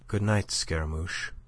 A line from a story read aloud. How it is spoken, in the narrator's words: she said, but so softly, so tenderly